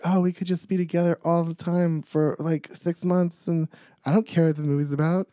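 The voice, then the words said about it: Imitates another person's voice. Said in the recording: “my Ben Affleck impression”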